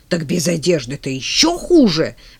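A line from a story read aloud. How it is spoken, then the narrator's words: Barked. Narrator (Russian): рявкнула Роза Константиновна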